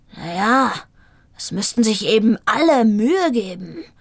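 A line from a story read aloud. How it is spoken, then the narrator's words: Growled reply. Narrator (German): knurrte er zurück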